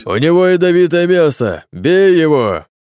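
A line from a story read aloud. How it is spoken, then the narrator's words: Sudden yell. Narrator (Russian): Совершенно не в тему и неожиданно заорал Дима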